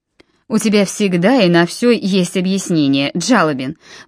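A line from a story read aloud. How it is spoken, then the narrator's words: Grumbling. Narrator (Russian): проворчал Нимрод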